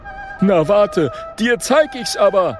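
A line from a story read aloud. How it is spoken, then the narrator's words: Calling out bravely. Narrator (German): ruft mutig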